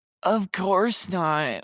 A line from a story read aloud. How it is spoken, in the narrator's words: I gasped